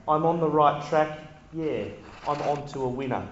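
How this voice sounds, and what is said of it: Singing in a put-on Kiwi accent. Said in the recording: “I don't know where the Kiwi accent just came from”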